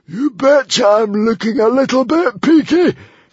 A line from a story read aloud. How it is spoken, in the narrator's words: shrieked the hairy, scary librarian